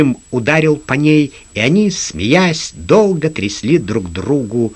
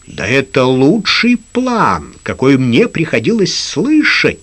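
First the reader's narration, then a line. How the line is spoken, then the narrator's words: Exclaiming. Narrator (Russian): воскликнул Лукас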